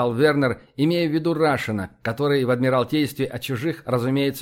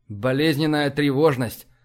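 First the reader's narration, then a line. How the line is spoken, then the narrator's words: Grim. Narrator (Russian): мрачно кивнул Вернер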